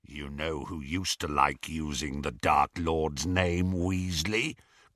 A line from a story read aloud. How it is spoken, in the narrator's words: growled Greyback